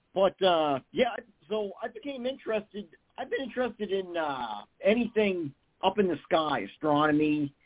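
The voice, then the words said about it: Massachusetts accent. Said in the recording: “originally I'm from Massachusetts. You can probably hear it in my accent”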